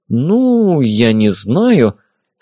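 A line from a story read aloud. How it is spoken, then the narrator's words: Doubtful drawn-out voice. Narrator (Russian): с сомнением протянула физик-теоретик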